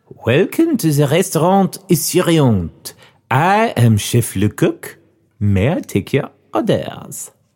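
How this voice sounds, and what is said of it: Put-on French accent. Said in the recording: “Chef Le Coq, okay. This is French. ... Ooh, not bad.”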